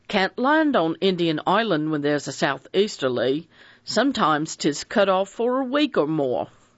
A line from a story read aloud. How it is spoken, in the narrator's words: Fred Narracott said cheerfully